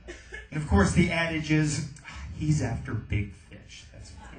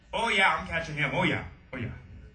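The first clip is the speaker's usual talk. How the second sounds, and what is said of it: Poor put-on Canadian accent. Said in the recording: “a little bit too close to the Canadian accent. Not even a good Canadian accent.”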